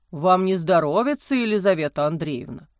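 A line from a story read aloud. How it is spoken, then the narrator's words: Concerned deep bass. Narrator (Russian): Озабоченно пробасил отец Амвросий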